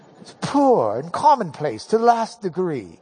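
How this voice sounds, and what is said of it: Put-on British accent. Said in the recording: “This would read so much better if we had a good British accent.”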